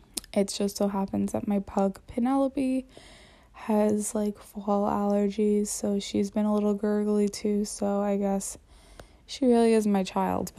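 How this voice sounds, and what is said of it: Congested, slightly off voice. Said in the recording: “I'm sure it's allergies, but my voice is a little off today. I have been feeling a little bit congested.”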